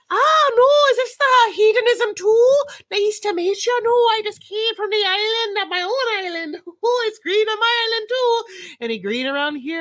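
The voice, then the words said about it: Put-on Irish accent. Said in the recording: “I'd have to change my voice. I would have an accent. ... that's my Irish swinger. Okay, honey, Irish swinger.”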